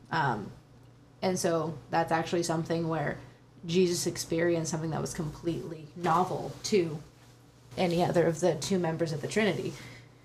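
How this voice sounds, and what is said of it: Shaky voice. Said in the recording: “Sorry if it sounds like my voice is shaking. I'm just a little cold”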